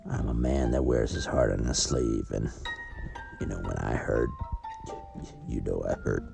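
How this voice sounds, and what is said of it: Cowboy-sounding accent. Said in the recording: “my accent and demeanor that I should be this stoic cowboy”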